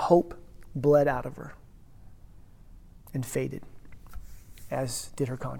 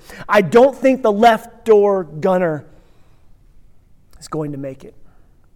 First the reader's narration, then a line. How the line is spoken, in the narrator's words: somebody shouted to the others